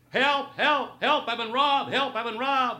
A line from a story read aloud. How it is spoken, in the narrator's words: suddenly he'd start to yell